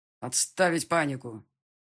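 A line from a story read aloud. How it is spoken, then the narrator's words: Growling. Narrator (Russian): рыкнул полковник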